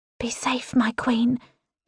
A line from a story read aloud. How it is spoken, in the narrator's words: Daria whispers to my back